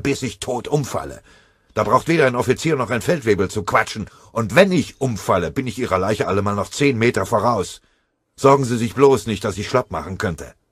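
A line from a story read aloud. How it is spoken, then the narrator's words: Shouting. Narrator (German): schrie er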